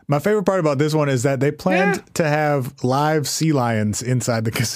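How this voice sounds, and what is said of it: Usual voice. Nothing is said of it.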